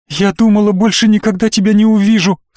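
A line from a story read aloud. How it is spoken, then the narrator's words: Sobbing. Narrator (Russian): всхлипнула Настя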